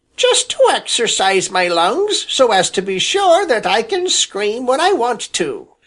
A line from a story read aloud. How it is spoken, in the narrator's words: replied Sammy, screaming still louder